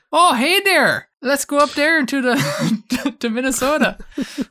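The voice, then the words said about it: Caricatured Minnesotan Yooper accent. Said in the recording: “that caricature of their accent you did there ... it just sounds just like the Yuper accent”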